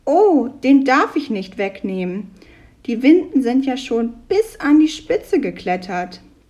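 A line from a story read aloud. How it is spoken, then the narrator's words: Calling out. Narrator (German): rief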